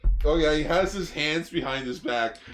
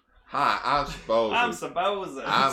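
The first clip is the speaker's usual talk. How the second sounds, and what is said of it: Put-on southern American accent. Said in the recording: “southern accent”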